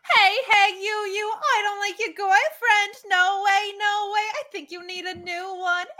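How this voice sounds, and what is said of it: New York princess character voice. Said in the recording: “As the New York princess... I have one impression.”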